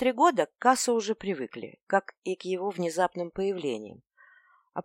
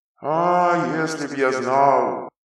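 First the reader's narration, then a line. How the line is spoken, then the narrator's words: Gloomy spirit. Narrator (Russian): мрачно отвечал дух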